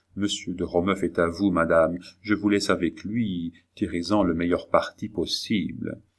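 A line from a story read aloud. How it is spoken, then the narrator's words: Whispered. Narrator (French): Charny disait tout bas à la reine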